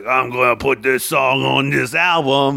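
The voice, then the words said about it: Imitates another person's voice. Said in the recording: “That was Rivers Cuomo... a really good Rivers Cuomo impression”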